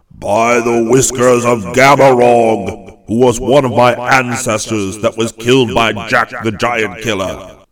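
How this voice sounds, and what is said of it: Very mild voice for a giant. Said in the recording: “he cried, but in a very mild voice for so big a person.”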